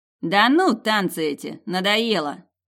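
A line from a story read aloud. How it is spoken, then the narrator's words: Snorting. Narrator (Russian): хмыкнул попугайстый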